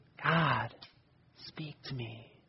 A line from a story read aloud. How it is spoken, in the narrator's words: the person whispered